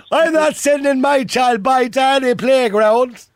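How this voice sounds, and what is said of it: Attempted Cork Irish accent. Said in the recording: “I'll do it in a Cork accent ... I can't do a Cork accent.”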